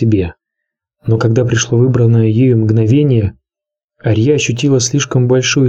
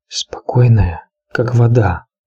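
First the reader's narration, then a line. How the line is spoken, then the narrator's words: Whisper in the ear. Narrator (Russian): шепнул ей голос на ухо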